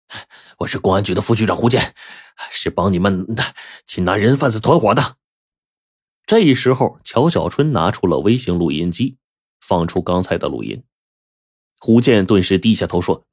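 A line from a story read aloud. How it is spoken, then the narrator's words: Panting. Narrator (Chinese): 他喘着粗气说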